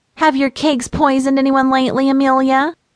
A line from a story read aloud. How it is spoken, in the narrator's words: she said with a nasal chuckle